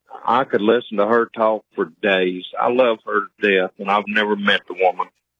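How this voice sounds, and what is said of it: Hillbilly accent. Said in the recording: “Do you think you have an accent? ... Yes, sir. I know I do. I'm a hillbilly.”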